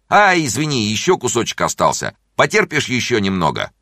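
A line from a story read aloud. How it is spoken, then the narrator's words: Shouted, doctor. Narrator (Russian): доктор закричал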